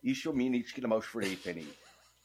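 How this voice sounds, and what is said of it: Put-on Kerry Irish accent. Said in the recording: “It sounds best with a Kerry accent”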